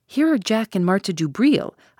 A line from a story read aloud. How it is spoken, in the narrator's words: I exclaimed